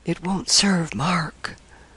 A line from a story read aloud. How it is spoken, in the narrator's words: him whisper